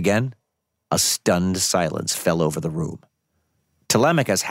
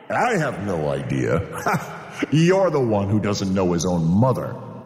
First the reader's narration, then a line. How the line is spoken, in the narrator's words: Antinous interrupted with a laugh